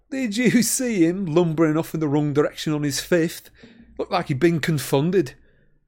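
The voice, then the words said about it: Highly satisfied, pleased tone. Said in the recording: “in a highly satisfied voice.”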